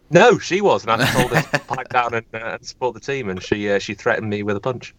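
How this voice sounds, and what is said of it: American accent. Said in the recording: “It must be my well-cultured American accent.”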